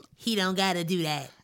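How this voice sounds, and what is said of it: Imitates a film character's voice. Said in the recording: “That's my Samuel Jackson in the Django voice”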